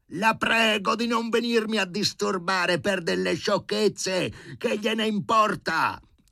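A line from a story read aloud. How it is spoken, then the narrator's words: Flustered shouting. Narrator (Italian): arrossì e si mise a gridare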